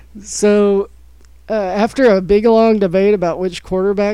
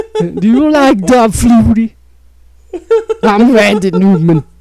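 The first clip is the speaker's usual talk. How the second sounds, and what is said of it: Imitates a singer's voice. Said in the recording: “I'm doing a Randy Newman impression out of nowhere. ... It's probably terrible, but in my head, like, it sounds surprisingly better than I thought it would.”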